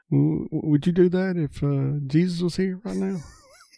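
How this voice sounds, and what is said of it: Imitates Joe Dirt's voice, poorly. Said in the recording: “my worst Joe Dirt impression”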